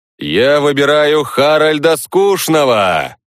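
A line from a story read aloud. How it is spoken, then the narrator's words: Loud. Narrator (Russian): громко сказал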